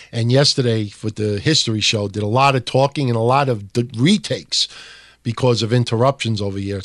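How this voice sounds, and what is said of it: Strained, slightly hoarse voice. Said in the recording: “I'm losing my voice a little bit because I did like what six shows this week ... So I'm starting to lose my voice a little bit”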